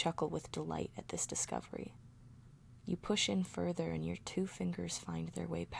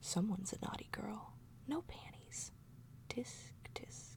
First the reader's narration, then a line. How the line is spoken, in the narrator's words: hesitate for a moment and then whisper in my ear